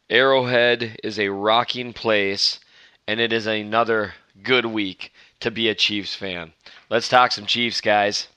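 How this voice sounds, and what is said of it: Very hoarse voice. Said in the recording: “Well, I can barely talk ... the very hoarse-voiced”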